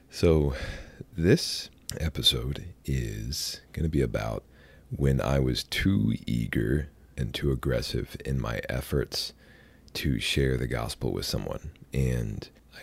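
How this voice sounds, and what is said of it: Deep, sick-sounding voice. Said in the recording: “excuse my voice. I'm a little sick right now, and I have the good fortune of sounding more like Barry White when I am sick than I normally do”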